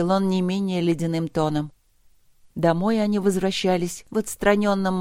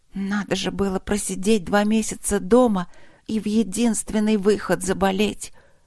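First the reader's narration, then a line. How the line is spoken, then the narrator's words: Tearful whisper. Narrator (Russian): прошептала она, смаргивая слезы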